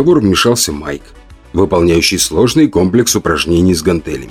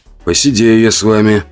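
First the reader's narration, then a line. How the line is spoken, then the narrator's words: Sighing. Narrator (Russian): вздохнул Крис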